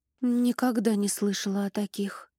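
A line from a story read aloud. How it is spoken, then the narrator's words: Strained whisper. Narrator (Russian): прошептала девушка, стараясь скрыть за фразой внутреннюю борьбу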